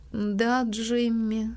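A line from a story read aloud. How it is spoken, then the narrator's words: Weak-voiced answer. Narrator (Russian): слабым голосом отвечала мисс Полли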